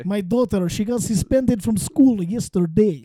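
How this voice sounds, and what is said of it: Put-on Russian accent, fairly good. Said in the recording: “Russian ... That's pretty good, dude.”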